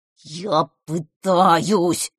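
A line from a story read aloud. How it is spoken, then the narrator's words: Growl. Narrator (Russian): прорычал жаба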